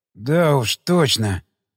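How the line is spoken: Hoarse wheeze. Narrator (Russian): прохрипел

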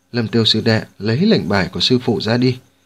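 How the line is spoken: Smiling. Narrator (Vietnamese): Ngô Tổ mỉm cười nói

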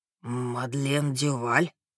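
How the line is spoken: Whispering. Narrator (Russian): прошептал он

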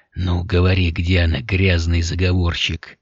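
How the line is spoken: Hoarse rasp. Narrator (Russian): прохрипел граф

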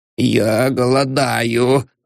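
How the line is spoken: Crackling voice. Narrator (Russian): сказал Воробьянинов трескучим голосом

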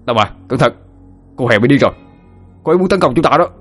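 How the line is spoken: Shouted loudly. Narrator (Vietnamese): hét lớn

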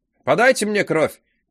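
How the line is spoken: Shouting. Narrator (Russian): крикнул Кеню

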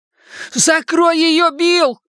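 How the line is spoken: Shouted. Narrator (Russian): прокричал Ричи

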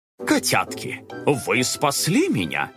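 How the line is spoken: Joyful exclamation, father. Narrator (Russian): радостно воскликнул папа

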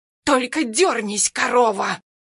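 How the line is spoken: Hoarse rasp. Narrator (Russian): хрипит Синявкина

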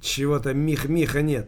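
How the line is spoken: Plain. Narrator (Russian): сказал

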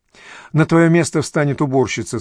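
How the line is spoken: Plain. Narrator (Russian): сказал он

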